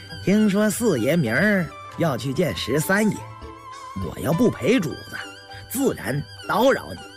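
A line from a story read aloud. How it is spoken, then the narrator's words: Laughing. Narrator (Chinese): 李卫笑了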